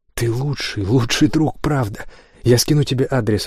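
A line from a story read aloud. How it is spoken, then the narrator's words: Excited exclamation. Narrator (Russian): воскликнул Лайт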